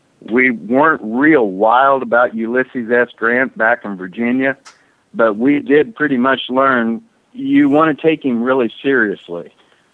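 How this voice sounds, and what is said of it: Southern American accent. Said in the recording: “I used to live in Virginia, obviously, with this accent. I've been a Southerner.”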